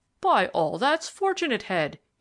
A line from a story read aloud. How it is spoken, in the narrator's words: he exclaimed